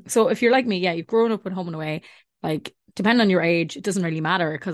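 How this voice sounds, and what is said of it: Accent where th sounds like h. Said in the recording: “did you say 30 with a H? ... people have been slagging my accent so much ... I have to keep pronouncing my H's over here because if I say anything that sounds like with TH”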